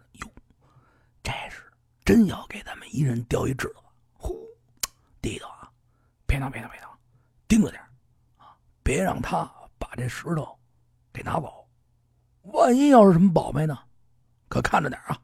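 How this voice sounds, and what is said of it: Whispered, hushed voice. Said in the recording (Chinese): “小声”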